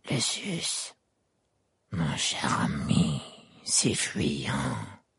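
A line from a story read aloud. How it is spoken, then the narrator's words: Murmured. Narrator (French): murmura-t-il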